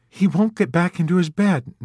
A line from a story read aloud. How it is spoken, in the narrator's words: Nurse Kramer reported zealously in an injured tone